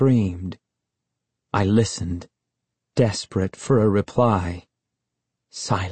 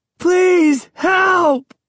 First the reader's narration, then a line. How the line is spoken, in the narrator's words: I screamed as loud as I could